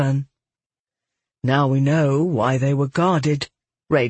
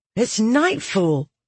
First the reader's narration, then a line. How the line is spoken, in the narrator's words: Red exclaimed